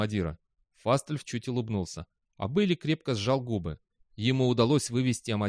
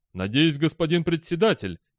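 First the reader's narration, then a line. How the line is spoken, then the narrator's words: Exclaimed. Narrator (Russian): воскликнул Амадира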